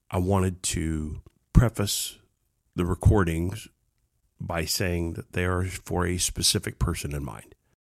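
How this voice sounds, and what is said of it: Congested, muffled sick voice. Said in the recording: “This has been re-recorded due to illness. I sound like my head's underwater right now”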